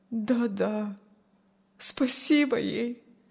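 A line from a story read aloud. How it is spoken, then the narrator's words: Sad. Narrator (Russian): грустно согласилась Аня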